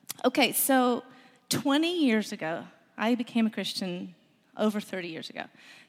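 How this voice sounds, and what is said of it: Hoarse voice. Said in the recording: “I am a little hoarse because we had a football game Friday night, and I scream ... that's why I'm a little hoarse this morning”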